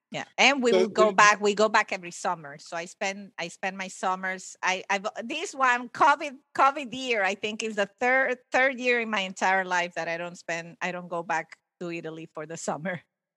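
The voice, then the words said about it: Latino-accented English. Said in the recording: “your accent sounds very Latino.”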